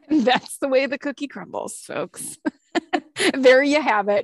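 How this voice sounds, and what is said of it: News reporter style voice. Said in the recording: “You sound like a news reporter.”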